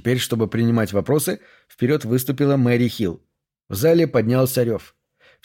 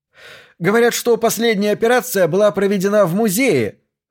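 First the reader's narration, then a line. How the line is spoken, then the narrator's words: Shouted out. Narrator (Russian): выкрикнул другой репортер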